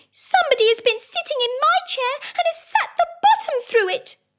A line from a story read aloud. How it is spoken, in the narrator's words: said the little wee bear in his little wee voice